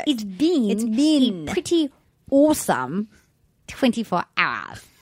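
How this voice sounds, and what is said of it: Imitates another person's voice. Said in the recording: “You do that accent... You have the bean, like, perfect... It's not good, but it's better than Scallops.”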